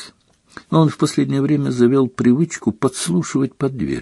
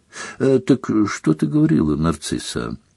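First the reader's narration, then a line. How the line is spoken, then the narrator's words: Shaky sigh, then speaking. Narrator (Russian): Она судорожно вздохнула и начала снова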